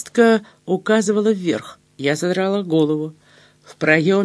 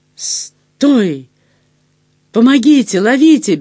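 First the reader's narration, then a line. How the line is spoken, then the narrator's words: Frantic yell. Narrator (Russian): бестолково завопила я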